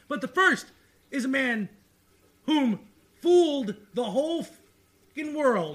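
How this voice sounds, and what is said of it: Excited yelling. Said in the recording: “You don't need to yell. I can hear you. ... I'm yelling because I'm excited.”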